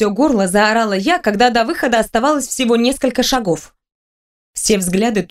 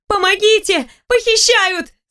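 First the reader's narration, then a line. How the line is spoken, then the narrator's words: Shouting again. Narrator (Russian): снова закричала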